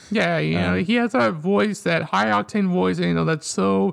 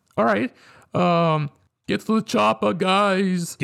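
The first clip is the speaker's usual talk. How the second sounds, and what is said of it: Arnold Schwarzenegger impression. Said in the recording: “your obligatory Arnold Schwarzenegger impression”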